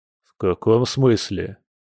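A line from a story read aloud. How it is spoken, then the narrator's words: Muttered. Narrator (Russian): буркнул Борис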